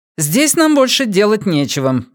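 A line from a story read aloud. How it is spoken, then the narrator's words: Sharp, curt. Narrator (Russian): резко бросила Эмили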